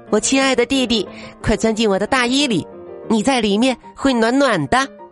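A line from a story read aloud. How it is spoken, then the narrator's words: Child, joyful loud shout. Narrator (Chinese): 小女孩高兴的大声喊道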